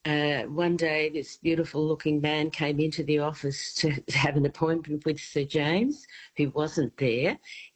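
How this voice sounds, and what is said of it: Australian accent. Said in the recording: “my Aussie accent”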